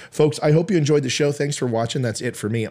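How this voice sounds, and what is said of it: Worn-out, strained voice. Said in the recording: “My voice is done.”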